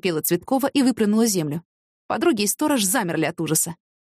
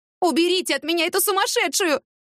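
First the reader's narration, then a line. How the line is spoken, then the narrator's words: Exhausted scream. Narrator (Russian): закричала Цветкова, не имея сил даже сопротивляться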